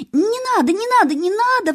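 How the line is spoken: Desperate scream. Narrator (Russian): в отчаянии закричала она

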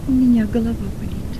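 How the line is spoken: Quiet voice. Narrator (Russian): тихо промолвил

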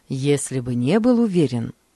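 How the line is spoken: Plain. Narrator (Russian): ответил он

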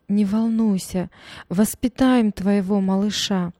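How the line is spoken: Mother sobbing, consoling. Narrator (Russian): Мама, всхлипывая сквозь слезы, утешала дочь

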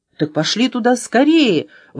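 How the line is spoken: Exclaiming. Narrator (Russian): воскликнул Антон

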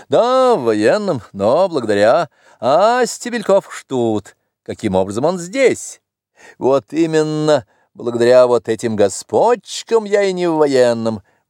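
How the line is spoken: Loud laughter. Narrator (Russian): он … захохотал

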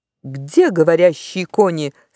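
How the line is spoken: Plain. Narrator (Russian): спросил Тириан

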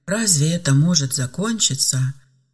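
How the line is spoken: Bitter sigh. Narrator (Russian): горько вздохнула Ева

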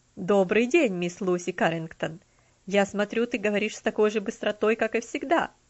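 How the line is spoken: Laughing greeting. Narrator (Russian): Приветствовал ее мистер Динсмор, смеясь

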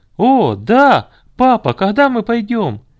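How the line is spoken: Boys shouting eagerly. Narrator (Russian): кричали мальчишки, которые были готовы сейчас же бежать туда

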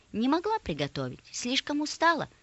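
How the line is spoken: Calm reply. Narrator (Russian): ответила спокойно мама

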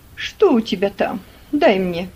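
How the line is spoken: Stern woman's voice. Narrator (Russian): строго сказала мисс Офелия

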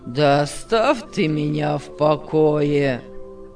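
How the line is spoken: Gloomy. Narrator (Russian): сказал мрачно Павел

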